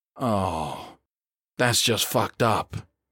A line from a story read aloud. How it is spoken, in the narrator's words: Ayers breathed